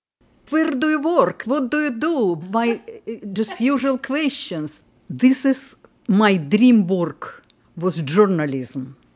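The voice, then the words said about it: Lilting Russian accent. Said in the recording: “In her lilting Russian accent.”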